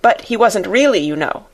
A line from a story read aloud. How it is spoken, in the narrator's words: put in Janet hastily